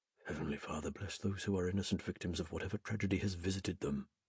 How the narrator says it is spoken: murmured

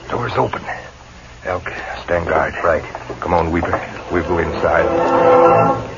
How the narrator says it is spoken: he whispered

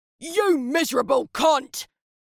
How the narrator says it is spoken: screamed

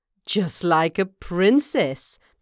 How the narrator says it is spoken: the second brother sneered

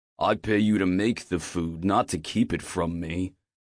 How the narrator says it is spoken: he grunts

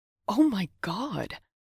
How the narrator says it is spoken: Sam exclaimed

